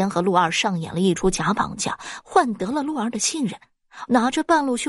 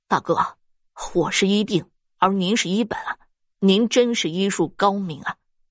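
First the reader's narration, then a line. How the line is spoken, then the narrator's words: Admiring praise. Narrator (Chinese): 石原了解真相之后，对师方赞叹道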